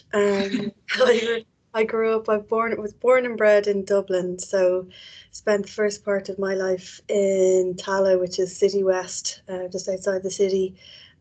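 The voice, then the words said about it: Irish accent. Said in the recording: “As you can probably tell from my accent, I'm Irish.”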